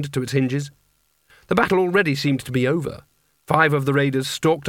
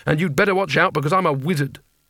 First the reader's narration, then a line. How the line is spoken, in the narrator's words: said Rincewind quickly